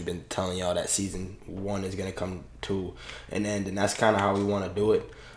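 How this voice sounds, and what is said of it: Sick, under-the-weather voice. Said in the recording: “As you can hear in my voice, and you're going to hear in ... voice, that we're y'all a little under the weather”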